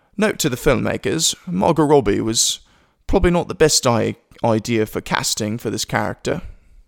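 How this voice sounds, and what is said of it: Bad put-on British accent. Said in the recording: “I hope you like my British accent. ... That was uh, pretty bad. ... that made myself cringe.”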